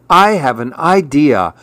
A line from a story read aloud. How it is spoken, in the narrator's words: cried Little Nauf